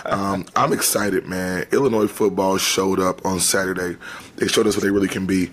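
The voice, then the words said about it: Hoarse, strained voice. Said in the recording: “my voice is halfway gone because I was screamed at the TV so much this weekend”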